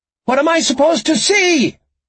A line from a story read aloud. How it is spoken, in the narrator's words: she shouted